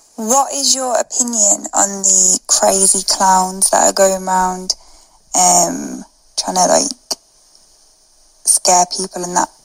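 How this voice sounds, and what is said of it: Bristol-area English accent. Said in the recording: “She's clearly not from the Midlands. She's from Bristol or around that area.”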